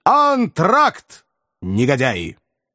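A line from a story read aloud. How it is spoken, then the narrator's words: Loud announcement. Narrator (Russian): артист громко объявил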